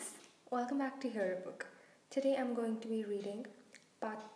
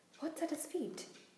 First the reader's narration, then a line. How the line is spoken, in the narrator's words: Hermione whispered